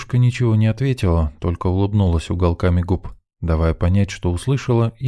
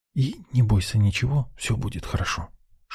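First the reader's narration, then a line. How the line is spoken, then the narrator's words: Whispered. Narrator (Russian): шепнул я девчонке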